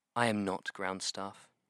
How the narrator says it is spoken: Essa said quietly

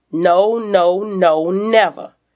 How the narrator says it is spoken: he stutters

